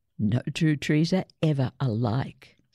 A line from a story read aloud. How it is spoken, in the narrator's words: said Gran